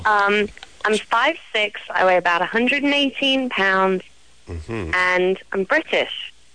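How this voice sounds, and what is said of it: British accent. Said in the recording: “let's hear the accent ... you're British? ... I like the accent.”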